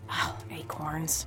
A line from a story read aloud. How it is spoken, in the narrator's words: I muttered to myself